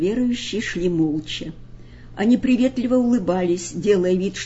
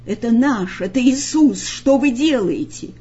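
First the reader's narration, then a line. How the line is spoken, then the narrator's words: Group shouting. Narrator (Russian): закричат они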